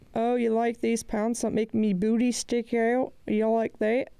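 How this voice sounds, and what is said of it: Put-on unidentified accent. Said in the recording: “I don't know what kind of accent I'm trying to do.”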